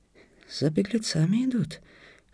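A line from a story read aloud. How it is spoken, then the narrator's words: Whispered. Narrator (Russian): шепнул Харким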